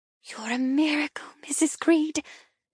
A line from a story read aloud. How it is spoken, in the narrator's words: she whispers, her throat clogged